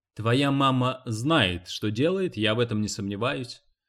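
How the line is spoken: Plain. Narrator (Russian): сказал Эрни

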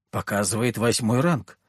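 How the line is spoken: Man muttering. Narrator (Russian): пробормотал мужчина

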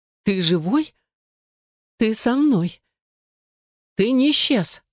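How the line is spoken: Sobbing. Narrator (Russian): Снова всхлипнула

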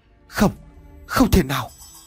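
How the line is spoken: Stammering. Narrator (Vietnamese): Ông Vọng nói giọng lắp bắp

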